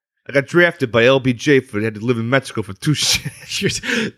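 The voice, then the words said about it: Tony Soprano impression doing Bad Santa. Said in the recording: “Can you do a Tony Soprano as Bad Santa impression?”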